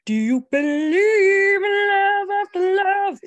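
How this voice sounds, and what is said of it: Sung imitation of a singer's voice. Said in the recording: “That's my Cher impression. ... You've got to get in the chest. Okay. Your chest voice.”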